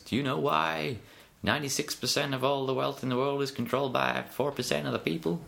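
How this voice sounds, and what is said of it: Bob Proctor impression, Texan-like accent. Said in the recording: “It's a very good accent. ... I don't know if it comes from Texas.”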